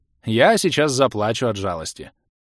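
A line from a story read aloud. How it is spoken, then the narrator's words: Snorting, mocking. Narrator (Russian): фыркнул маг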